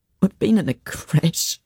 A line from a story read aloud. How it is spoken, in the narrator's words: Morris said, sobbing